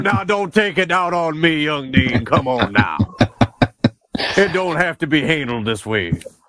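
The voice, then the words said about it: Put-on Southern gentleman accent. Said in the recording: “goddamn accent ... my southern gentleman”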